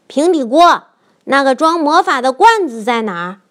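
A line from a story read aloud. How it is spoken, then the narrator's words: Shouting. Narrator (Chinese): 乔大喊道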